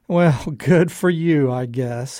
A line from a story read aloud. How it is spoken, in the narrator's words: he yawned back